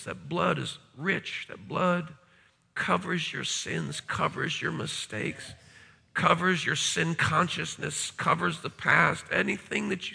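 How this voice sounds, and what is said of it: Crackly, strained voice. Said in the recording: “my voice is a little crackly. I've been preaching like a wildfire.”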